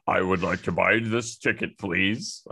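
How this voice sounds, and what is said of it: Deliberately deepened adult voice. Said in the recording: “deepening your already deep voice”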